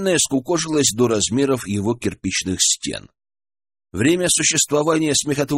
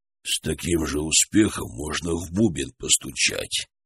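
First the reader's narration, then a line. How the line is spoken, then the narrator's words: Muffled grumbling from pit. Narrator (Russian): пробурчал из ямы Харитон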